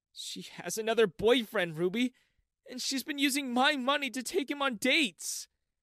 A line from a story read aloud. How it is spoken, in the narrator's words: I cried on Ruby's shoulder